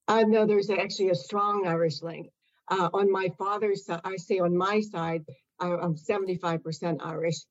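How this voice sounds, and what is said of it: American accent. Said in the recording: “an American accent.”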